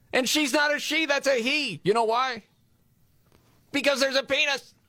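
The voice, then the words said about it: Yelling loudly. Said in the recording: “why am I yelling?”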